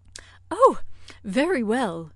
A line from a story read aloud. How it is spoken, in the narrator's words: exclaimed Miss Bates